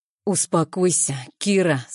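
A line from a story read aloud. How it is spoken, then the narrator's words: Through gritted teeth. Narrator (Russian): сквозь зубы цедит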